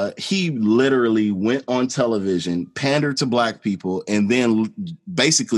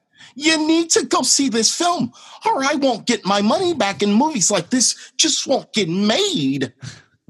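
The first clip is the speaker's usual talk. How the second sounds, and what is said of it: Imitates another person's voice. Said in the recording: “Probably the best George Lucas impression I think I've ever heard.”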